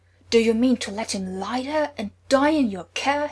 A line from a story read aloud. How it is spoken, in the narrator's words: he roared